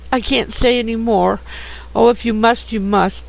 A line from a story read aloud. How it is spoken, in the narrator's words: said, bursting out into sobs that seemed to tear her heart